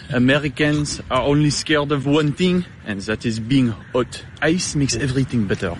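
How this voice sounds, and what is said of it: Speaks with a noticeable accent. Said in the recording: “He has an accent... I thought he said blackfast”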